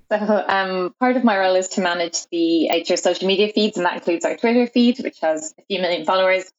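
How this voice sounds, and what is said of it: Irish accent. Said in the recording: “You might notice from my accent that I'm Irish”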